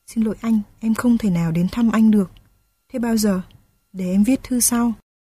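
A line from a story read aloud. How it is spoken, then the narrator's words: Lowered voice. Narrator (Vietnamese): Nhung hạ giọng nói tiếp theo luôn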